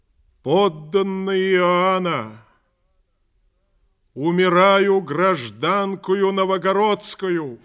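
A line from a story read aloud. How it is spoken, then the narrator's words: Loud declaration. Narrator (Russian): громко сказала народу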